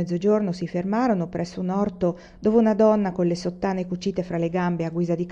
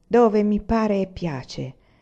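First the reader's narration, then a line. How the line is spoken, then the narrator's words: Low voice. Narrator (Italian): rispose a voce bassa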